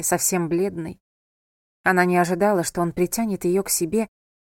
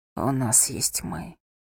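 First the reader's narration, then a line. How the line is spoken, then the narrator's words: Whispered. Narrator (Russian): прошептал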